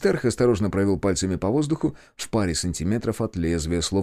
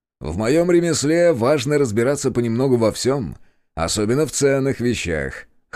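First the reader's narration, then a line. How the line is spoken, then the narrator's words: Merchant's scoffing grunt. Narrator (Russian): хмыкнул купец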